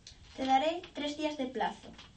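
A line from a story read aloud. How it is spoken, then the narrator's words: Plain. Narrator (Spanish): dijo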